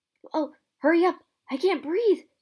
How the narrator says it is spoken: Harry gasped

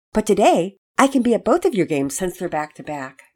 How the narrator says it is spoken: Daddy Peters said excitedly

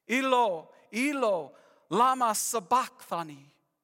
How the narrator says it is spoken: Jesus cried out in a loud voice

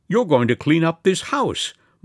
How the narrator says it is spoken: my mother exclaimed

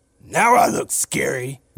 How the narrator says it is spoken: the crank said with a sneer

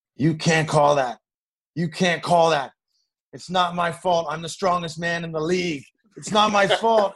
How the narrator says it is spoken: Dano's screaming

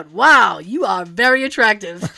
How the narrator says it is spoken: he ... blurts out

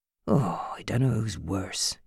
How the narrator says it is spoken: muttered into his teacup

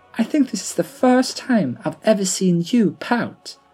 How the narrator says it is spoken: Theresia said in an amused voice

